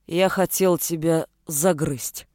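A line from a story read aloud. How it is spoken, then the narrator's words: Low, muffled voice. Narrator (Russian): глухо произнес Володар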